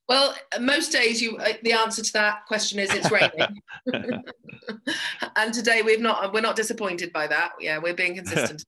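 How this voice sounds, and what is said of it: English accent. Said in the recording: “you have a bit of an accent ... My accent isn't from Belfast because I was born in England and grew up there”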